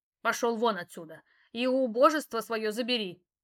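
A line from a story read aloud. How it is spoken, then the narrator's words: Growled. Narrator (Russian): рыкнула на него баба Рада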